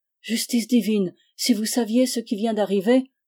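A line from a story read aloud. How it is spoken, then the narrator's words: Shouting from afar. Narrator (French): s'écria-t-il du plus loin qu'il nous découvrit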